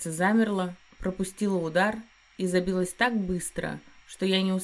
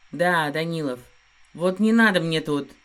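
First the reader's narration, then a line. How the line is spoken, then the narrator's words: Growl. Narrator (Russian): Рыкнул он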